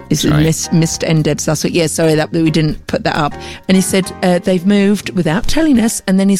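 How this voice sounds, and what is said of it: Usual voice. Nothing is said of it.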